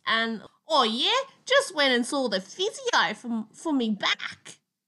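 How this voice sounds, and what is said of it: Exaggerated Australian accent. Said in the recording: “we go super okko with the Aussie accent”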